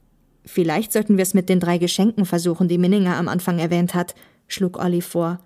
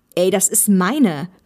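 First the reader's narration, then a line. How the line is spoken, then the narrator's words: Calling out. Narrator (German): rief er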